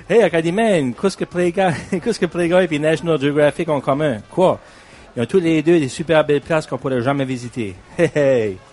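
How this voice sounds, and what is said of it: Acadian French accent. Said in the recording (French): “j'en ai un sous la main qui a le bon accent”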